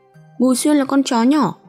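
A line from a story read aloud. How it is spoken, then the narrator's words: Loud shout. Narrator (Vietnamese): Lúc này Lý Đạt hét to một tiếng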